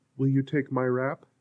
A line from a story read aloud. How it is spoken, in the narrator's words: said